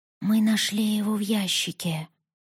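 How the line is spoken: Whisper. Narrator (Russian): прошептала Поппи

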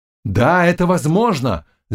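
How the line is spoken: Group shouting. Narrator (Russian): закричали офицеры

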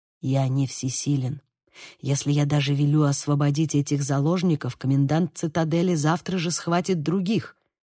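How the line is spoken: Quiet. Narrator (Russian): ответил ему шевалье так же тихо

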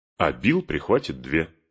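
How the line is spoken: Plain. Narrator (Russian): сказал Сэм

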